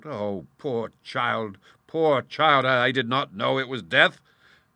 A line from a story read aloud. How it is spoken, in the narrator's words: he cried out